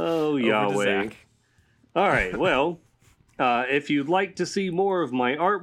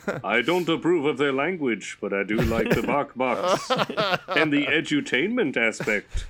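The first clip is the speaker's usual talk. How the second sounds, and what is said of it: Mock voice of God. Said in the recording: “your God impression”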